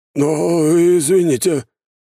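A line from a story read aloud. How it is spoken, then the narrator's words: Very hesitant. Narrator (Russian): как-то совсем неуверенно произнес граф Кривошеев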